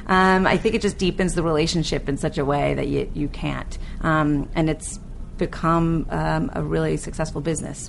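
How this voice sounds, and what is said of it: Queens New York accent. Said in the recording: “my Queen's accent”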